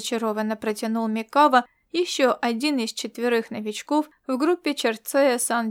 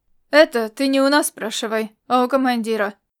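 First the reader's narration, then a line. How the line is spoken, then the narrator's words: Snorting. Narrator (Russian): фыркнул Рид Арперев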